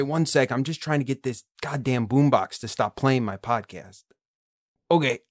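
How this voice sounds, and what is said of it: Usual voice. Nothing is said of it.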